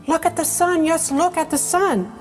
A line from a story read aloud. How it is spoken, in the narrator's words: cried Mrs